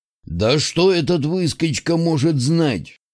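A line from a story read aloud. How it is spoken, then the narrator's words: Displeased grumble. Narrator (Russian): Недовольно пробурчал Скоробей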